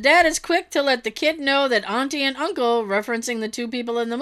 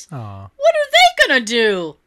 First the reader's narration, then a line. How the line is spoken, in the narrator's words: a small kid behind me say in an adorable, squeaky voice